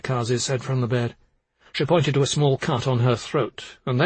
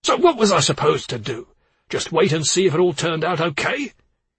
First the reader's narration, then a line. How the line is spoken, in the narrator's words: he growled at Fred